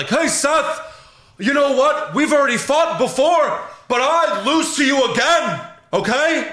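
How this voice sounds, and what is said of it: Imitates another person's voice. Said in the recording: “Your Kevin Owens impression ... it was pretty good”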